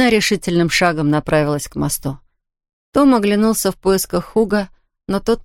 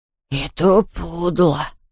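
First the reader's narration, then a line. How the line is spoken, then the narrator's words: Grumbling. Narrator (Russian): ворчал Хуга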